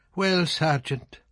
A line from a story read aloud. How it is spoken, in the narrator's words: the captain said sadly